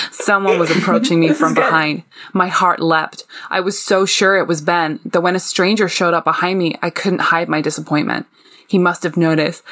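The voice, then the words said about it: Put-on American accent. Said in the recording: “I'm going to try and bring pull in my best American accent”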